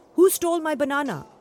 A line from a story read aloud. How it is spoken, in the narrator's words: the banana seller yelled